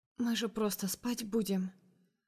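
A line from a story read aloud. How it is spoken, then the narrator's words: Barely audible murmur. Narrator (Russian): проговариваю еле слышно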